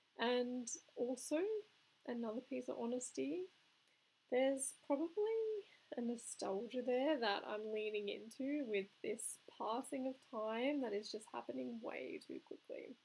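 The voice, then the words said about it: Australian accent. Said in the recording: “I live in Melbourne, Australia, if you couldn't tell by my accent.”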